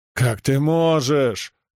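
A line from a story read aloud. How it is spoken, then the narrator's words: Howling wail. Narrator (Russian): взвыл хозяин дома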